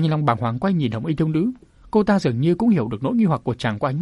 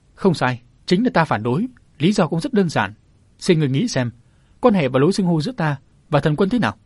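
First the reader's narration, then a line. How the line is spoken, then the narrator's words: Smiling. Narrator (Vietnamese): mỉm cười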